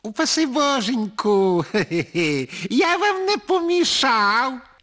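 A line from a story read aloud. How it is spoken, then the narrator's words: Ironic sugary voice. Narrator (Ukrainian): запитав іронічно підсолодженим голосом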